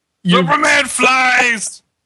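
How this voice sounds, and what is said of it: Character voice of Sloth. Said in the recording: “That is a really good sloth impression.”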